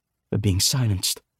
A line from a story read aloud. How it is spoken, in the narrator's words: Victoire said grimly